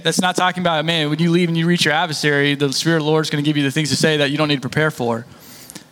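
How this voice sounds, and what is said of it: Very fast speech. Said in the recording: “I said that really fast.”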